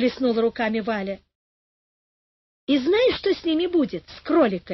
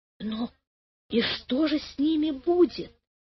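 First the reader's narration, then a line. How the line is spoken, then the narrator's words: Whispered question. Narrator (Russian): спросила она почему-то шепотом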